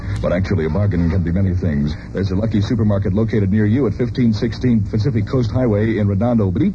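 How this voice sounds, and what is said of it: Radio announcer voice. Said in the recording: “here's my announcer voice again”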